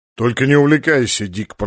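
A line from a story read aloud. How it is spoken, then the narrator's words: Grumbling. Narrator (Russian): проворчал полубой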